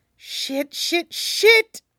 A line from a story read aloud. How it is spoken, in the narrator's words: Wade mutters